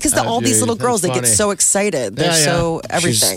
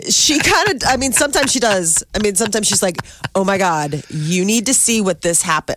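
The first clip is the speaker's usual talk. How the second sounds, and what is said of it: Imitated Californian way of talking. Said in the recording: “talk like a Californian?”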